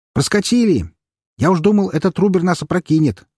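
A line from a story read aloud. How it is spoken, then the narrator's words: Younger one shouting. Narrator (Russian): крикнул младший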